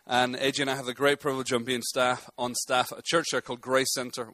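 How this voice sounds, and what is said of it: Tennessee Southern American accent. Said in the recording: “we're from Nashville, Tennessee. You can probably tell from my accent that gave that away.”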